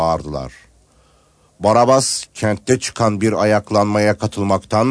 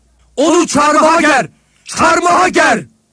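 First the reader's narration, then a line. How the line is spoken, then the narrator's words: Crowd shouting repeatedly. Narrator (Turkish): diye bağırıp durdular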